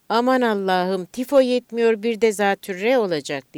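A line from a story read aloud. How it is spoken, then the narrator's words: Mother shouting. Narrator (Turkish): diye bağırdı annem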